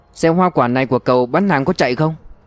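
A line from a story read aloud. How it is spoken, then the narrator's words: Loud question. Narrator (Vietnamese): Giáo sư Lương lớn tiếng hỏi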